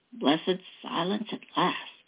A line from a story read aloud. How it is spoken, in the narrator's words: he whispered